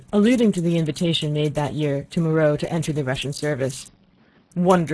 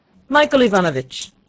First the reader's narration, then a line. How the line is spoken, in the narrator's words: cried the old prince to the architect